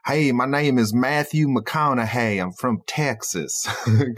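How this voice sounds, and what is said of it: Nasal Southern Texan drawl, Matthew McConaughey. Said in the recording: “he has a Southern Texan accent ... it's very nasally ... we call it a Southern drawl or a Southern twang, and yeah, it's usually very nasally”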